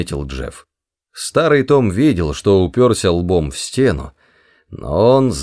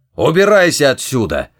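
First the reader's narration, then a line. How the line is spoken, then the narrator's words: Angry bark. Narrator (Russian): рявкнул он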